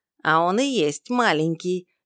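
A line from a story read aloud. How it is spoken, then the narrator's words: Snide giggle. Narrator (Russian): ехидно хихикнул Дар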